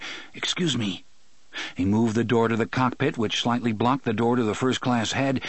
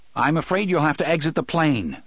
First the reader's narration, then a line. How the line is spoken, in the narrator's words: the pilot said sharply